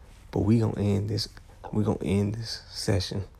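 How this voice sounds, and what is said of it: Usual voice. Nothing is said of it.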